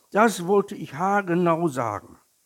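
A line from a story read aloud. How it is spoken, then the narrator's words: Calling out. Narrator (German): rief der kleine Tiger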